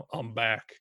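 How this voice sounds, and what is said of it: Feeble Arnold Schwarzenegger impression. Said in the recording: “I cannot do accents. ... That was a feeble, the most feeble Arnold Schwarzenegger ever.”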